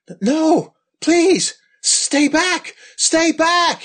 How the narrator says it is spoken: screams

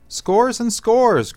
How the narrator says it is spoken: cried Br'er Rabbit

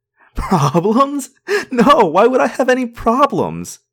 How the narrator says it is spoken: giggled

